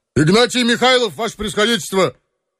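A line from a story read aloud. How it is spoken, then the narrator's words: Flat wooden bass. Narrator (Russian): Безучастным солдатским деревянным басом ответил осадчий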